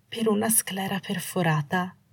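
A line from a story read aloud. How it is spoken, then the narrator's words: Wavering voice. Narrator (Italian): disse con voce vacillante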